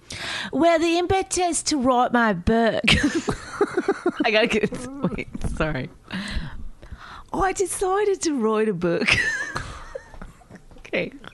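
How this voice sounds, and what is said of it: Put-on British accent. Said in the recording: “I'm going to do it all in a British accent”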